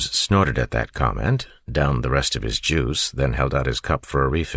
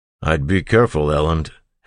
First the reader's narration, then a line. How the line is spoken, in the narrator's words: Ham said with a chuckle